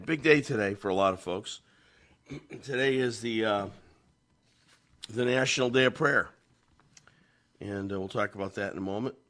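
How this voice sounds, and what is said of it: Slightly ill-sounding voice. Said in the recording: “slightly diminished ... I'm feeling a little peaked today. Yes, you can hear it in my voice”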